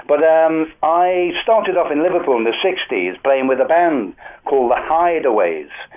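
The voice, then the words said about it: Slightly posh Scouse accent. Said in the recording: “accent,⟧ I'm a Scouser, but a bit of a posh one now, being up in London too long”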